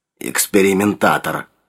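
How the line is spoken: Grumbled. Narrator (Russian): проворчал он

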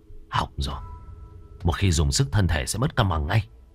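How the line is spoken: Quiet voice. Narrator (Vietnamese): anh gầy nhỏ giọng

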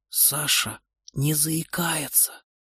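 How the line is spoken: Whispered. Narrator (Russian): шепнул Антон Ольге

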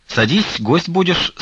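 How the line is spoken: Merry laughing. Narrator (Russian): с веселым хохотом сказала Фленушка

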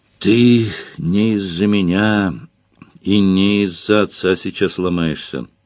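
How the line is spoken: Tired voice. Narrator (Russian): сказал я ему устало

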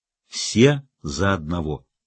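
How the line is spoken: Solemn. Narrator (Russian): Джекки торжественным тоном произнесла

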